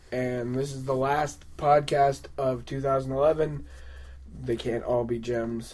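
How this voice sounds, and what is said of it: Strained, failing, congested voice. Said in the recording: “my voice is going fast... my nose is running”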